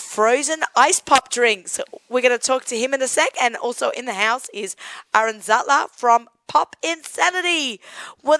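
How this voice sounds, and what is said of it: Hoarse voice. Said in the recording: “I'm suffering from crazy laryngitis. I'm very hoarse.”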